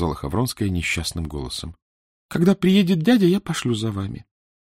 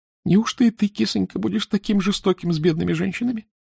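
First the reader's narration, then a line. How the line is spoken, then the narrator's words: Sobbing. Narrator (Russian): всхлипывала графиня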